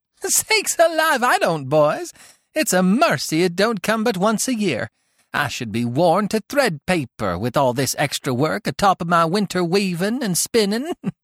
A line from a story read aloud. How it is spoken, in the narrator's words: laughed their mother